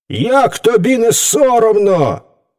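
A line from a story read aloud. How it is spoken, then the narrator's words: Indignant group exclamation. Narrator (Ukrainian): обурено вигукнули звірі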